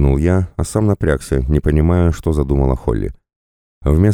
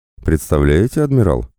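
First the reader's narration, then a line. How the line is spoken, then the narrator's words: Laughing. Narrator (Russian): рассмеялся он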